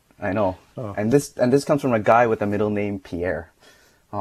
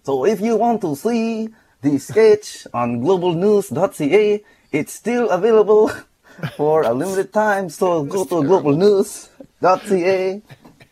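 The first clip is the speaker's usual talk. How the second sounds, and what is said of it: Poor attempt at French accent. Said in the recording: “that's not French at all. But it was a good attempt ... We need to work on your French accent.”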